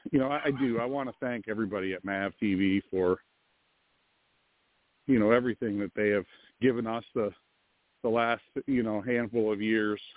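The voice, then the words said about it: Slightly out of breath. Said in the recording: “I'm walking, guys, sorry, so I'm a little out of breath here”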